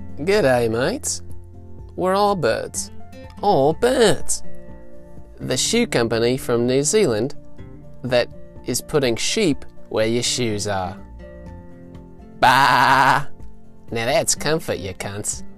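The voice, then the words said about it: Put-on accent. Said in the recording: “that was, in fact, me. I do accents.”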